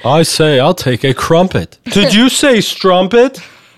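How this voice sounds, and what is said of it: Put-on British accent. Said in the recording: “a wonderful British accent”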